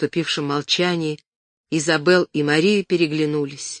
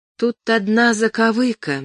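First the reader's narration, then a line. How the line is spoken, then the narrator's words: Forced out reluctantly. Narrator (Russian): наконец выдавила Изабель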